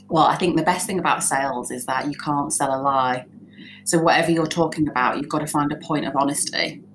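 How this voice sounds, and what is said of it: Northern English accent. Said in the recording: “a colloquial, like a northern accent ... because I was northern”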